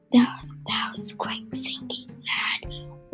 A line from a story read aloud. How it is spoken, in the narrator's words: whispered Erica Grind